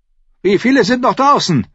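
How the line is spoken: Loud call to nobody. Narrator (German): rief laut, an niemanden im Besonderen gerichtet

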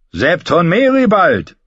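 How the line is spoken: Called out. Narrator (German): rief er

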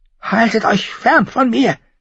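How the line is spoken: Hissed. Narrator (German): zischte Viserys

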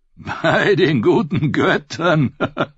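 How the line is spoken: Laughing. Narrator (German): lachte Darion

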